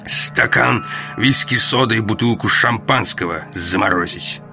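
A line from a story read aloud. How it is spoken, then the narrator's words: Through gritted teeth. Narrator (Russian): сквозь зубы сказал Роллинг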